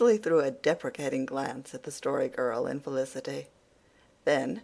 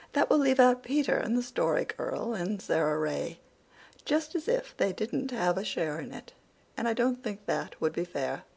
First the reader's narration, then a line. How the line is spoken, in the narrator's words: said Cecily timidly